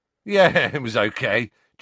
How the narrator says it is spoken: chuckled Dean

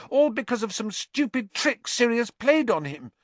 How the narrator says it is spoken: Hermione said desperately

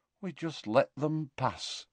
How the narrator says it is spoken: said Tonks in a hollow voice

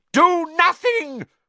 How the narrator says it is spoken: Voldemort shrieked to the Death Eaters

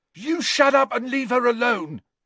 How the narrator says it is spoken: shouted Peeks

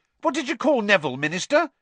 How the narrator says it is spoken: said excitedly

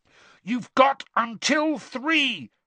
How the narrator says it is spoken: Harry shouted

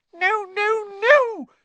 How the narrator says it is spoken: squeaked Dobby

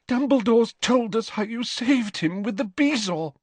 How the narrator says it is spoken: she sobbed

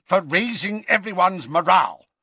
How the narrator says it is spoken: snapped Scrimgeour

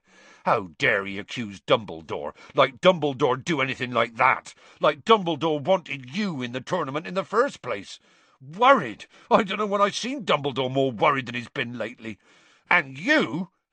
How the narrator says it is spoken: Hagrid suddenly said angrily to Harry

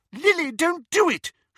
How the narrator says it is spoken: shrieked the elder

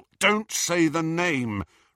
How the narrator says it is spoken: Ron cut across her, his voice harsh

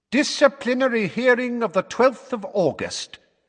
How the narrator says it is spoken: said Fudge in a ringing voice

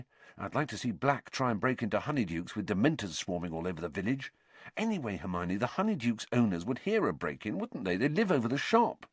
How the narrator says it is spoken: said Ron, quietly

